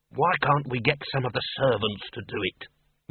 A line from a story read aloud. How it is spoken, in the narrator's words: muttered the senior wrangler